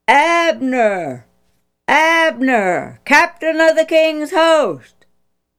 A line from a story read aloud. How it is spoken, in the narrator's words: David called loudly